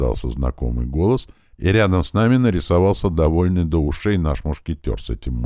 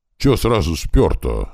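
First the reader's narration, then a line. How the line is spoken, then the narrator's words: Offended sniffing. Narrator (Russian): обиженно засопил он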